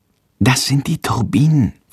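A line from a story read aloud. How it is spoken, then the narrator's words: Whisper. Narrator (German): flüstert Jendrik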